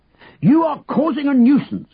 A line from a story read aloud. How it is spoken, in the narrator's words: the policeman bellowed